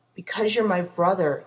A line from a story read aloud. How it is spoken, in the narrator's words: Dean growled